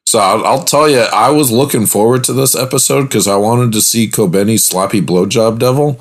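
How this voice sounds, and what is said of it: Slightly strained, worn-out voice. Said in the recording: “my voice is a little bit thrown out”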